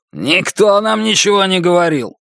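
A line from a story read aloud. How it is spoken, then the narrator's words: Growl. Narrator (Russian): Второй прорычал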